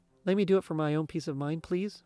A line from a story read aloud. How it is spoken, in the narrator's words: Megan asked